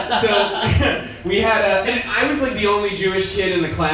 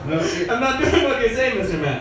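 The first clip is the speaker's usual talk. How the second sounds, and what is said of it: Put-on Jamaican woman's accent. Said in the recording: “sounds like a Jamaican lady, like, telling off, like, her supervisor ... I'm never going to do a Jamaican accent again.”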